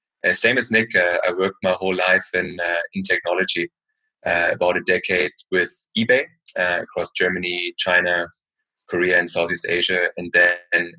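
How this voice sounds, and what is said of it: German accent in English. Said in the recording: “as you can probably tell by my accent, I'm originally from Germany.”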